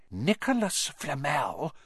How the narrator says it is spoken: she whispered dramatically

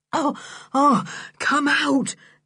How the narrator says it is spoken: gasped Julian at last

